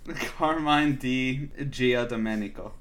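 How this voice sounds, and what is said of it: Put-on Italian accent. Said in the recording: “Say it in a full Italian accent.”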